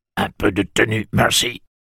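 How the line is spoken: Gruff tone. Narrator (French): dit tantine Talitha d'un ton bourru

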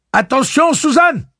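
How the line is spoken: Warning shout. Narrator (French): cria Roland

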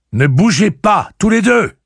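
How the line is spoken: Shouted again. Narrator (French): cria-t-il encore une fois

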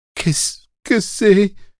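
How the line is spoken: Stammering, teeth chattering. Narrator (French): Maintenant, elle ne pouvait plus articuler un son sans bégayer et claquer des dents

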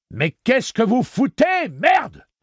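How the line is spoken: Yell. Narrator (French): hurla Balazard

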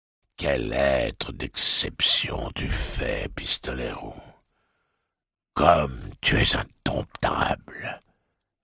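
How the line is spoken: Sneering inner voice, man. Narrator (French): ricana la voix de l'homme en noir dans sa tête

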